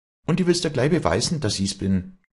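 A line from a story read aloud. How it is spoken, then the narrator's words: Proud call. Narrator (German): rief Walli mit auffallendem Stolz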